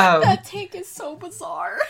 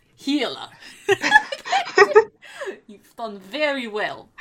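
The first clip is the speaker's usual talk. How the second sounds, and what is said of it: Thick put-on Russian accent. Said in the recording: “just like a thick Russian accent”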